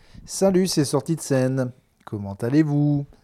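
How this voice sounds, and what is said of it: Imitated Swiss French accent. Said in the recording (French): “C'est un accent suisse, alors que je suis aux Pyrénées. Et puis c'est pas vraiment l'accent suisse.”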